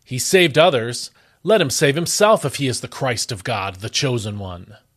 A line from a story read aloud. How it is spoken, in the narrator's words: the rulers sneered at him, saying